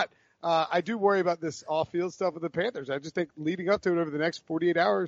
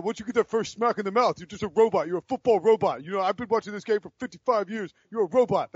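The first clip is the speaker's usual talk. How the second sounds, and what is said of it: Imitates another person's voice. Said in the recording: “That's a terrible Prisco impersonation.”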